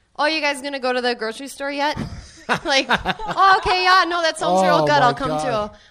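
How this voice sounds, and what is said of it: Exaggerated Minnesota accent. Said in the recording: “I go to Minnesota ... I got my accent back in like a day ... Real accent”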